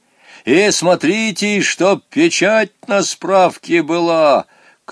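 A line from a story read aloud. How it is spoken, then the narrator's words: Shouted after them. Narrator (Russian): крикнул им вслед Помидоров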